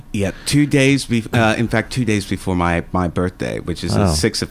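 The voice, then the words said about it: Speaks with a modified accent. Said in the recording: “I don't care what you've done to modify your accent, but it's very sexy.”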